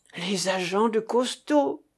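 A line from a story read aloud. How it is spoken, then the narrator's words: Exclaiming. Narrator (French): s'écria la ficelle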